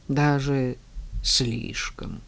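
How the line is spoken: Gloomy reply. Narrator (Russian): мрачно отозвался воин

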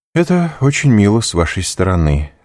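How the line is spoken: Indifferent, flat tone. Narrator (Russian): сказал Монте-Кристо таким же безразличным тоном, как сказал бы любую другую фразу

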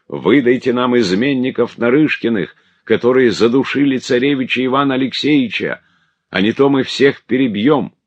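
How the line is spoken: Crowd shouting. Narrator (Russian): все они кричали

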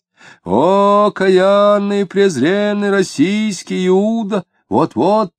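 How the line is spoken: Loud chanting, mimicking deacon. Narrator (Russian): громко и нараспев, подражая дьякону, начал читать

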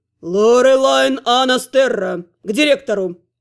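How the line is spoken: Thundering through corridors. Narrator (Russian): Прогремело по коридорам

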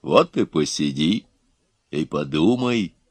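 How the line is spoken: Calm. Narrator (Russian): спокойно молвил Илья

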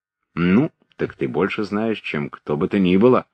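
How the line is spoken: Plain. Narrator (Russian): сказал князь Андрей

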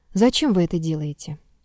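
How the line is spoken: Quiet question. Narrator (Russian): Князь Давидов тихо спросил

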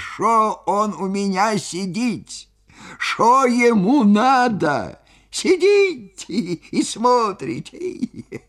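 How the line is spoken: Laughing, bass and squeaky. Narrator (Russian): хохотал, хохотал до слез, то басом, то тонким писклявым голосом, и спрашивал меня

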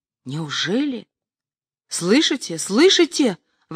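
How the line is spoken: Exclaiming to departing crowd. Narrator (Russian): воскликнул второй, обращаясь к расходившейся компании

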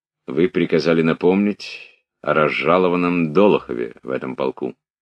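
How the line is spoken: Quiet, in French. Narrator (Russian): Князь Андрей по-французски тихо сказал

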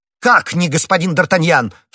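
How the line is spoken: Shouted. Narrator (Russian): в свою очередь закричал комиссар

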